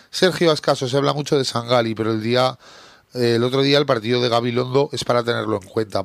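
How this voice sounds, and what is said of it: Hoarse, deepened sick voice. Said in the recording (Spanish): “al final se te va a quedar voz de hombre... vas malo y cada día 3 horas hablando, pues no se me va a curar en la vida”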